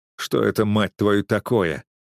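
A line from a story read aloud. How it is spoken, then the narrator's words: Irritated question. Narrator (Russian): раздраженно спросил я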